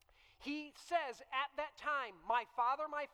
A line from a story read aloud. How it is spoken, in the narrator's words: he cried